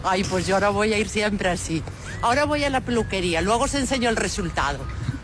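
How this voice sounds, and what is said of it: Put-on Galician Spanish accent. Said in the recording (Spanish): “Es acento gallego, ¿eh? ... Sí, es muy, muy gallega.”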